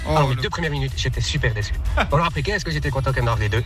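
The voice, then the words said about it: Noticeable regional accent. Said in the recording (French): “il me fait rire avec son accent”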